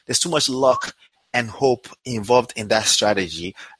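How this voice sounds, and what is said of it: Speaker with a noticeable accent. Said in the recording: “my accent makes you want to make sure you hear that”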